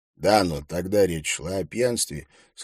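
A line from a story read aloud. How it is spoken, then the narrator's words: Plain. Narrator (Russian): сказал Харри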